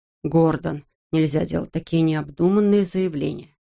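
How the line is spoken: Calm. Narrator (Russian): спокойно произнес он

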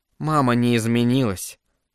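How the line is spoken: Sad. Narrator (Russian): грустно проговорила Катерина

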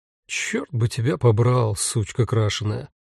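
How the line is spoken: Tired inner thought. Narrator (Russian): устало подумала Рута

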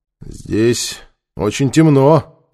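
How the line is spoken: Thoughtful. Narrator (Russian): задумчиво проговорил Нефер

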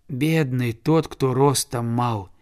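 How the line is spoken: Boy's sigh. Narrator (Russian): вздохнул мальчик

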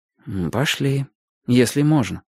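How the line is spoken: Quiet. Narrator (Russian): тихо сказал Шурка

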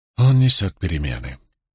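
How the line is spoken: Hoarse muffled whisper. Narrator (Russian): хрипло прошептала скрытая клубами пара Мэлэйн

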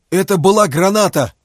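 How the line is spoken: Shout. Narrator (Russian): прокричал Фома

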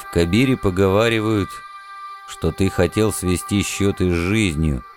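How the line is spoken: Dull distant rumble. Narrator (Russian): глухо пророкотал далекий гром

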